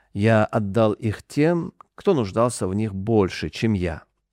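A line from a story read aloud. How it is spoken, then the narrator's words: Calm reply. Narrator (Russian): Абу Зар, да будет доволен им Аллах, спокойно ответил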